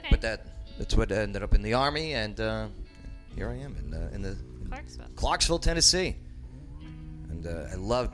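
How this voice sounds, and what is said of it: New Jersey / New York accent. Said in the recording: “You have an interesting accent. ... I'm going to say New York. ... I'm a Jersey born, New York lived.”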